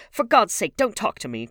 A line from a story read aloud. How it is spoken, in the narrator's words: cried Dorian